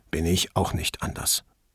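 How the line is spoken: Quiet snort. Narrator (German): er schnaubte leise

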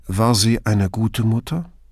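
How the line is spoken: Calm question. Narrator (German): erkundigte er sich ruhig

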